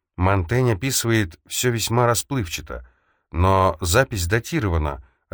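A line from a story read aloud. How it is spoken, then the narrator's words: Plain. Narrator (Russian): ответила она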